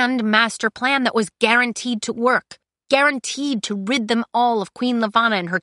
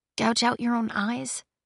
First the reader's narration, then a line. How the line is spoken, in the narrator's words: She said softly